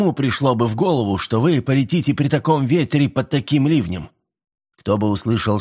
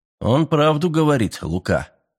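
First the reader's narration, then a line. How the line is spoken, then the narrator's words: Calm. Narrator (Russian): спокойно произнес Миллер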